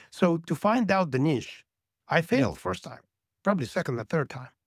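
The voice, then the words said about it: Speaker's own accent. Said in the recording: “I have an accent.”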